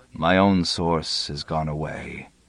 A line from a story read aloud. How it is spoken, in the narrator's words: said mournfully